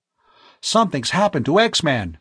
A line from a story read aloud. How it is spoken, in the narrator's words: Tom cried